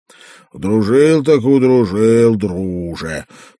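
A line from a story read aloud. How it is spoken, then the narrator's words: Grumbling. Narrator (Russian): продолжал ворчать Радок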